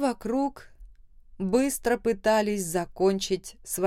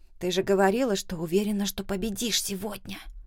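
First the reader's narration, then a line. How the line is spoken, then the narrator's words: Quiet displeased whisper. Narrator (Russian): Тихо, недовольно шептала Марта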